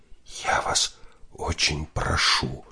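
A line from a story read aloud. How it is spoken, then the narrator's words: Woman whispering. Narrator (Russian): прошептала женщина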